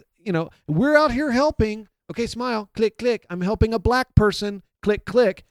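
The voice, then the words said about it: Imitates another person's voice. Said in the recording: “Your imitation. ... That was my Sean Penn imitation.”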